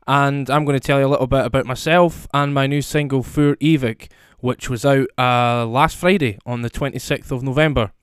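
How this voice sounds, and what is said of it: Scottish accent. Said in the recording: “I'm a singer-songwriter from Scotland, as you can probably hear from my accent”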